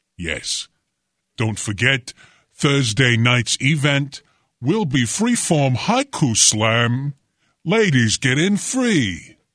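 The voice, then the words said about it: Exaggerated projecting, emoting poetry-reading voice. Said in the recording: “What is that voice there? ... I was projecting. I was doing the thing. ... I was emoting. I was feeling the rhythm of the ancient Japanese art of haiku.”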